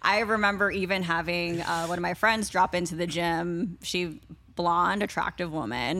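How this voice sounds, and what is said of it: Usual voice. Nothing is said of it.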